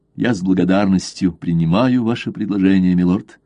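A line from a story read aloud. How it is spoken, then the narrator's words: Plain. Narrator (Russian): сказал Блад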